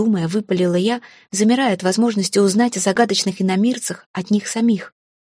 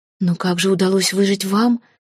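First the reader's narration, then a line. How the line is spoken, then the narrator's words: Shocked breathless exhale. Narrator (Russian): потрясенно выдохнула я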